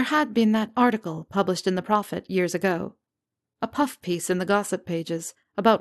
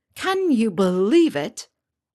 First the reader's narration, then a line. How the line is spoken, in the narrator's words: Ron had scoffed with a roll of his eyes